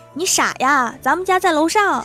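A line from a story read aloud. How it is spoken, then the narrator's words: Shouting. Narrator (Chinese): 欢喜冲小哈喊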